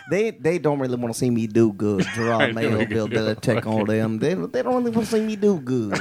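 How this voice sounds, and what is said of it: Imitates another person's voice. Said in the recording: “I knew you could do a Randy Moss voice ... That's a really good impression”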